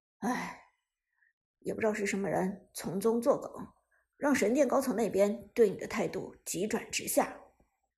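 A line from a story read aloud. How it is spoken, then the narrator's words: Long sigh. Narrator (Chinese): 韩小军一声长叹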